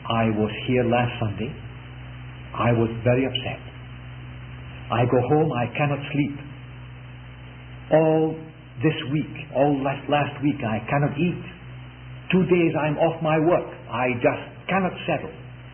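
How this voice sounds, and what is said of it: European-accented speech. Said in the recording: “in a kind of European dialect”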